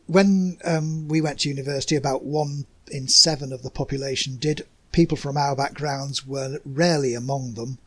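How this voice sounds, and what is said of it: Working-class Yorkshire English accent. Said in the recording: “my accent's an English accent from Yorkshire ... it's a working class accent”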